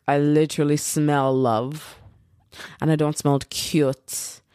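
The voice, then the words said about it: Poorly done put-on accent. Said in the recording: “I don't know what accent this is. I suck at accents.”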